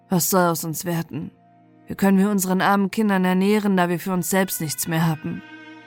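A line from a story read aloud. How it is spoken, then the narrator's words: Worried sigh. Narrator (German): vor Sorgen seufzte er und sprach zu seiner Frau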